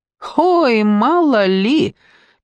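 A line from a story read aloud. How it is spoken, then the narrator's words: Carefree laughing. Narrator (Russian): Петя беспечно засмеялся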